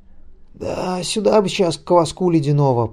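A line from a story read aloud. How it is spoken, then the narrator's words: Voiceless wheeze. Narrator (Russian): просипел кто-то без голоса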